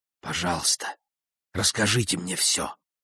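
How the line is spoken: Whispering. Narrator (Russian): зашептала она

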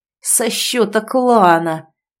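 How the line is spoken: Bear-like roaring shout. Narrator (Russian): выкрикнул ей в лицо, по медвежье зарычав во всю глотку

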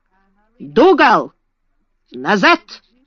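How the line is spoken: Shout. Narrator (Russian): крикнул он

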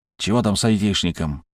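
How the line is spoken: Grumbled into phone. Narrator (Russian): буркнул он в трубку

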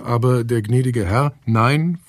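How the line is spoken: Dismayed stammer. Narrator (German): Bestürzt stammelte

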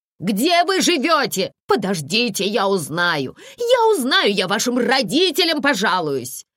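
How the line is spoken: Woman shouting after them. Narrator (Russian): кричала им вдогонку незнакомая женщина

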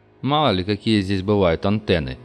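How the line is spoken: Snorting. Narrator (Russian): хмыкнул Диц

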